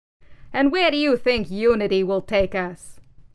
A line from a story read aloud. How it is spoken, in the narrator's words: Hammerhead sneered